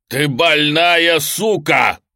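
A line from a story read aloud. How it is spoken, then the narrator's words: Barking. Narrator (Russian): рявкнул он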